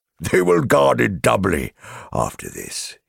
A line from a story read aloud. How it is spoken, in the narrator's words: he laughed